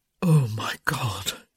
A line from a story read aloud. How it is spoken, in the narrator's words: he groaned